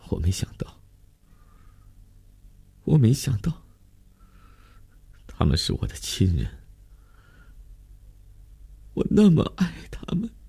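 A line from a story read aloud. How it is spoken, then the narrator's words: Choked, broken sobbing speech. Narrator (Chinese): 哽咽地断断续续地说了两句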